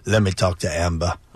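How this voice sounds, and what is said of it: Poor impression, a little Terminator-ish. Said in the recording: “Is that your impression? ... No, it was terrible. ... not very good. ... He's a little Terminator-ish.”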